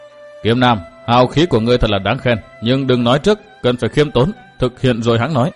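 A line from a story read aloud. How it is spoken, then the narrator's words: Stern. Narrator (Vietnamese): Cận Tố Tố giọng nghiêm nghị tiếp lời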